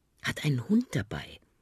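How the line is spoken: Murmured. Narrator (German): raunte Aki

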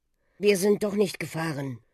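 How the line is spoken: Mumbling. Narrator (German): nuschelte Ben

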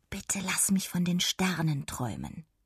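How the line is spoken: Murmured wish. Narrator (German): presste die Augen zusammen und murmelte

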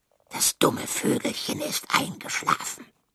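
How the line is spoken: Hissed. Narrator (German): zischte Halbschwanz

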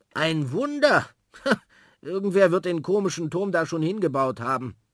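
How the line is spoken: Laughing. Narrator (German): lacht

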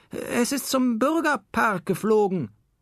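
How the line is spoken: Trembling, shaken call. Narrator (German): rief die noch immer zitternde Frau Kiebig

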